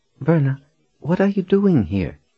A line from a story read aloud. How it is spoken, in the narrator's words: Janet asked in a demure voice